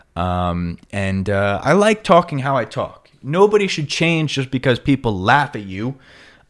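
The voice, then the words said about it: New York accent. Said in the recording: “I do have a New York accent ... my New York accent would go away”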